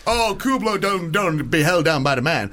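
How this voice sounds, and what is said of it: Put-on character voice, sounds Black. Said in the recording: “He's not meant to be black. ... he sounds like a member of the Black Panthers ... He's a white bloke from Matlock ... I don't know why it sounded so sort of racist”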